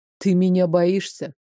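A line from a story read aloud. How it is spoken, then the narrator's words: Displeased scoff. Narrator (Russian): Недовольно хмыкнул блондин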